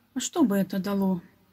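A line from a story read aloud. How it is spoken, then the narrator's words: Sad boy. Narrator (Russian): грустно ответил мальчик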